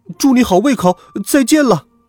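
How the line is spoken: Shouting. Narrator (Chinese): 喊完

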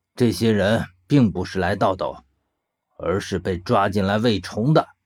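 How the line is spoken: Cold voice. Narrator (Chinese): 他仍旧是冷冷的声音

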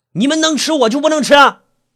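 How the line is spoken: Gruff shout. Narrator (Chinese): 粗着嗓门喊着

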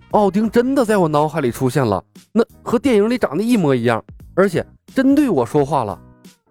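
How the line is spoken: Embarrassed anger. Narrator (Chinese): 苏汤恼羞成怒

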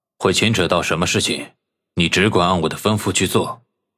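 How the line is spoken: Cold, interrupting. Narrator (Chinese): 萧雨冷冷的打断他，说道

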